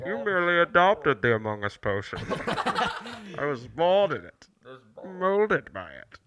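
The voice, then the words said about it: Bane impression. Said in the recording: “talking like Bane ... Tom Hardy as Bane”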